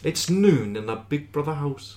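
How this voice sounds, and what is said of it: Failed attempt at a Geordie accent. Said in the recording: “That's not even Welsh. You've created a whole new accent there. ... that's a whole new accent. It's definitely not fucking Geordie”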